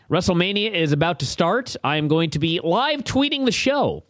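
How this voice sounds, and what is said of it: Voice strained, nearly gone. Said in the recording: “I am losing my voice”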